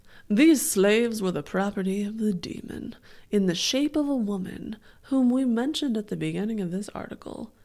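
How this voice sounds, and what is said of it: Reads in a put-on voice. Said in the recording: “should I do a voice? ... You always do.”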